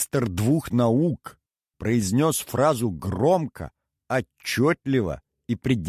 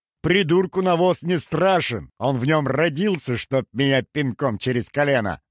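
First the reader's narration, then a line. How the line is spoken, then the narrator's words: Laughing. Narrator (Russian): рассмеялся Бааламестра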